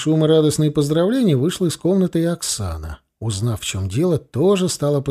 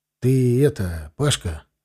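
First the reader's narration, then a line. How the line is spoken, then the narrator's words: Confused but peaceful. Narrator (Russian): Несколько растерянно, но мирно начал он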